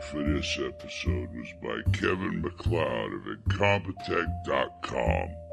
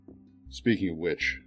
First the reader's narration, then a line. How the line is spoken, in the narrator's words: I said